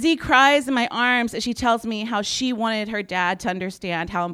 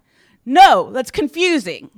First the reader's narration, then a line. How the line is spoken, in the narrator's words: her dad ridiculously snaps back